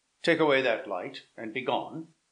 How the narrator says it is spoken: Manfred, who was walking impatiently about the gallery, started and said hastily

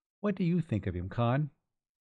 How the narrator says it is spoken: She asked anxiously

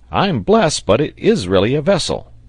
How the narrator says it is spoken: he exclaimed, in a voice which did not express any great amount of satisfaction

